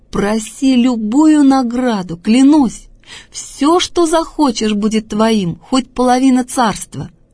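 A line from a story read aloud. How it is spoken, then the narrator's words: Delighted exclamation. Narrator (Russian): восхищенный Антипа воскликнул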